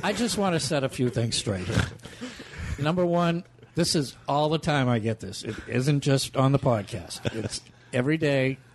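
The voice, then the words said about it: Speaker's own regional accent. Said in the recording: “They make fun of my accent. ... Oh, we love his accent.”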